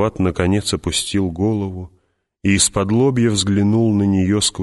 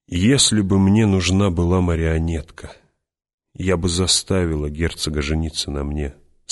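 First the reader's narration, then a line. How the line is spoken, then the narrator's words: Calm. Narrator (Russian): спокойно продолжала Джессика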